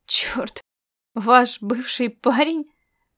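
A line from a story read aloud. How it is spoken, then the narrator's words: Hoarse wheeze after coughing. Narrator (Russian): Просипела она после того, как немного откашлялась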